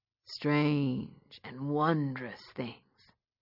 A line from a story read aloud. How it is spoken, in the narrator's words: he said in a dramatic voice, like he was narrating a book